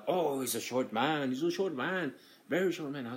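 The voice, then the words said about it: Imitates a European-accented voice. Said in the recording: “he has an accent, because he's like from I don't know, somewhere in Europe.”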